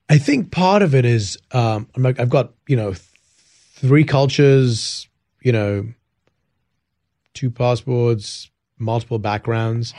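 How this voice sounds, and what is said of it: Speaks with a noticeable accent. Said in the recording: “Heck of a great accent.”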